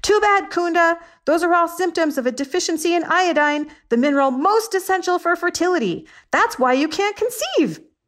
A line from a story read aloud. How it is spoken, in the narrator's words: I yelled